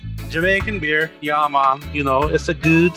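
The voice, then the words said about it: Attempted Jamaican accent. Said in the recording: “I don't know if it's a Jamaican accent, but I just said it anyway.”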